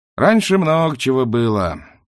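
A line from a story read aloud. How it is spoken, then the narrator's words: Sighing. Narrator (Russian): вздохнул сосед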